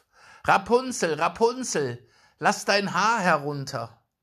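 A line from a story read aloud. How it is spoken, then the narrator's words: Calling out. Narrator (German): rief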